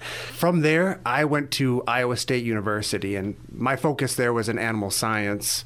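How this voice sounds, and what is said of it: Hard Wisconsin accent. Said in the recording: “I was raised in Wisconsin. If you hear some of the hard accents, that's where I was raised at.”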